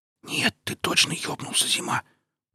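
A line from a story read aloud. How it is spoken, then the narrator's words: Hiss. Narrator (Russian): прошипел тихо стоявший до того Блинов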